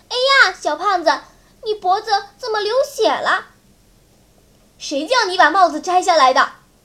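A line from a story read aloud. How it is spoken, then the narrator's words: Sudden alarmed cry. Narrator (Chinese): Lucy 突然惊叫起来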